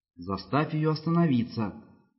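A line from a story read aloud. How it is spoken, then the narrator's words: Quiet, cautious. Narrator (Russian): сказала Низа тихим осторожным голосом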